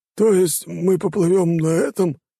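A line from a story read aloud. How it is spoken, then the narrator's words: Exclaimed. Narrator (Russian): воскликнул Людвиг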